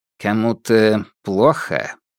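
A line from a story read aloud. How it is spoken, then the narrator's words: Gloomy question. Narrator (Russian): мрачно осведомился Фальк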